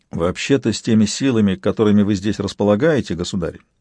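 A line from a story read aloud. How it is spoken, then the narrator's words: Indifferent tone. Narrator (Russian): Айкис сказал безразличным тоном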